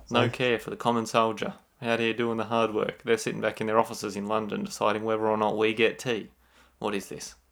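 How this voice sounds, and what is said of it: Put-on British accent. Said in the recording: “Did you start that off in a British accent?”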